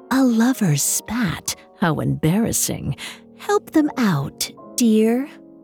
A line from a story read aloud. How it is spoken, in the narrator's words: The fairy whispered in her ear